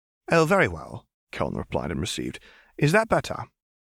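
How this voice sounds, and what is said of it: British received pronunciation accent. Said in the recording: “would you mind speaking in received with me again ... your received pronunciation is divine ... more pleasing than many native speakers ... Now you sound like a proper Hogwarts wizard.”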